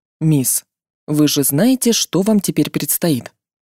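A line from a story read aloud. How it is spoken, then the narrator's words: Gentle question, mage. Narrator (Russian): мягко спросил меня маг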